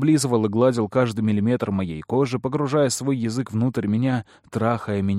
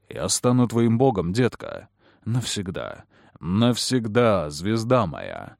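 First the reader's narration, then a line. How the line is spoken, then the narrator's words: Muffled mumbling. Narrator (Russian): пробормотал Кэллум, уткнувшись лицом в меня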